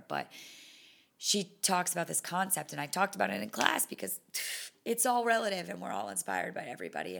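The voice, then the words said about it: Hoarse, fading voice. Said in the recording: “I'm losing my voice more and more as I'm doing this”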